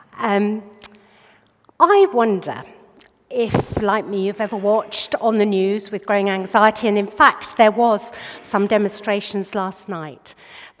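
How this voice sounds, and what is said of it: Hoarse voice. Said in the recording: “Have to excuse my hoarseness.”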